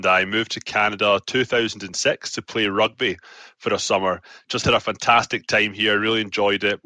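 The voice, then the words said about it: Scottish accent. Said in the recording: “where your accent is from ... I'm from Scotland”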